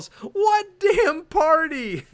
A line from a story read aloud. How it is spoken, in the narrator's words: he yells